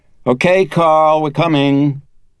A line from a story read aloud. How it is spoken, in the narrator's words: Snapped out of her reverie, Chris called out